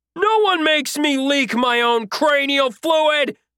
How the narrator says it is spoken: I yelled

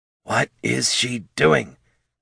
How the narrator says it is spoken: Thane muttered through his teeth

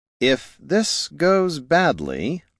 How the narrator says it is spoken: the mask said slowly

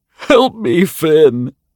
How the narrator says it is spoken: sobbed a man as he cringed away from the approaching scissors

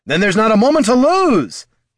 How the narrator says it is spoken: shouted the new Heraldin

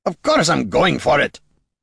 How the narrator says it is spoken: Gorm barked

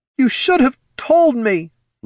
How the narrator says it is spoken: Laruna sobbed

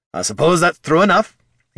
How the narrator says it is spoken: he said loudly

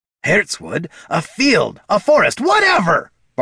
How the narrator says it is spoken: barked Bert

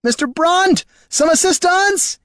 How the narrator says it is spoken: screamed

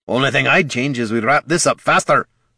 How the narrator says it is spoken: snapped

